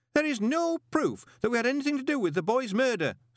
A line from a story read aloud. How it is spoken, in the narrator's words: snapped Horsefry